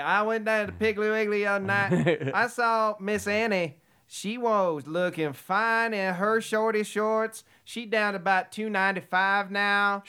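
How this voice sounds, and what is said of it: Put-on hillbilly Southern accent. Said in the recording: “Southern accent ... Because otherwise you're hillbilly.”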